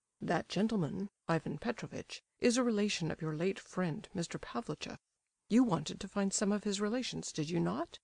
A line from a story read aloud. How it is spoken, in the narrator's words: General Epanchin said to him, in a low tone